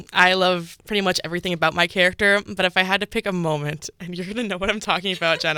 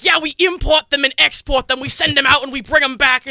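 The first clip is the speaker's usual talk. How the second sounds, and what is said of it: Put-on New York gangster accent. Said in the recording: “all in a New York gangster accent”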